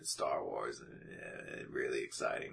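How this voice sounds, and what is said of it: Low grumbling imitation of another person. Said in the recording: “the low grumble ... great Harrison Ford impersonation ... super low and shitty throughout”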